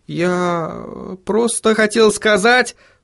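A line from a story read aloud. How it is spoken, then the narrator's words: Muttering. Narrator (Russian): пробормотал он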